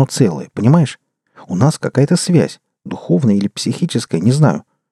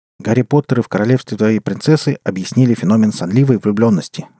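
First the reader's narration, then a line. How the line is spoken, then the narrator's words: Rapid chatter. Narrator (Russian): затараторил Валя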